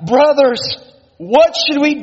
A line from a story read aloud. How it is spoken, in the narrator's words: with a single voice, our souls cried out